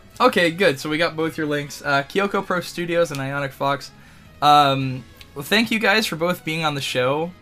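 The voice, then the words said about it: Worn-out, nearly lost voice. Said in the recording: “my voice is almost dead.”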